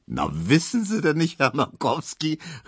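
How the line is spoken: Laughing call. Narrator (German): rief Tesch lachend

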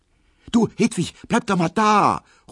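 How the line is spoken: Calling out. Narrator (German): ruft Emma

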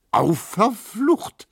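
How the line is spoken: Calling out. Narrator (German): rief Neumann

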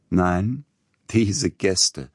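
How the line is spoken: Laughing. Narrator (German): lachend

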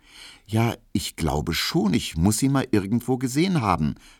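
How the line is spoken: Stammered. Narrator (German): stotterte Emil Kubinke

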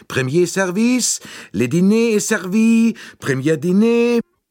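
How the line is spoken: Urgent summoning call. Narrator (German): seine Stimme, die auffordernd rief

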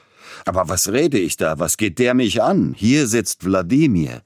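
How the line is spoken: Sudden, almost angry exclamation. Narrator (German): Plötzlich aber unterbrach Peter Iljitsch seinen galanten Redeschwall und rief beinahe zornig aus

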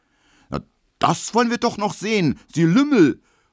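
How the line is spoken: Angry shout. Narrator (German): ruft Emil Kubinke, rot wie ein Puter

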